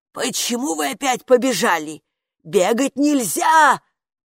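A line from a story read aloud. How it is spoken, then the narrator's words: Shrill shout. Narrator (Russian): пронзительно крикнула им привратница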